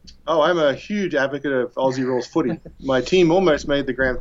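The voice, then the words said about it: Mild Australian accent. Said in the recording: “I detect a little bit of an accent. Is it Australia or New Zealand? ... It is an Australian accent. ... not quite as strong as it used to be, but obviously it's still there”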